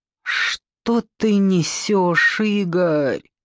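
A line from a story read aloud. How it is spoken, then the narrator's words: Moaning. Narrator (Russian): застонала Надя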